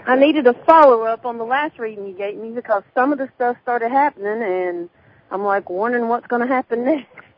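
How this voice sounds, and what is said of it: Southern American accent. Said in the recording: “Southern ... accent”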